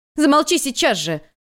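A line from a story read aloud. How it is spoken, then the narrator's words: Shouting. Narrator (Russian): крикнула Вэйнло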